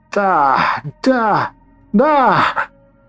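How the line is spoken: Witch shouting. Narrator (Russian): кричала ведьма

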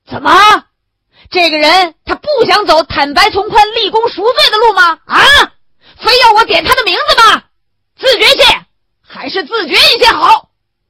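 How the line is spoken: Roaring. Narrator (Chinese): 袁干事吼了起来

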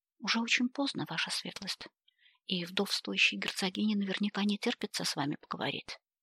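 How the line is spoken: Soft but insistent. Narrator (Russian): мягко, но настойчиво напомнила она

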